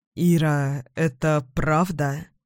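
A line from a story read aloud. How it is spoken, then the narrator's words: Muffled, broken voice. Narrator (Russian): Голос бывшего мужа сейчас звучит глухо, надломленно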